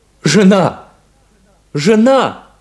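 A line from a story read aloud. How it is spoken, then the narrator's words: Shout. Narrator (Russian): крикнул Шарль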